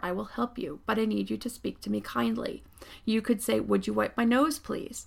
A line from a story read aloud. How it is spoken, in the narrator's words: I calmly told her